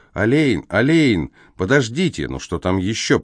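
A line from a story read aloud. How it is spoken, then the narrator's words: Grumble. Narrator (Russian): пробурчал Алейн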